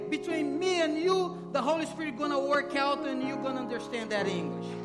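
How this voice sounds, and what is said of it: South American accent in English. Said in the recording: “Because I have South America accent.”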